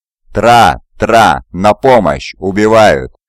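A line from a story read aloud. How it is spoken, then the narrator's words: Yelling for help. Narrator (Russian): завопил Хафсер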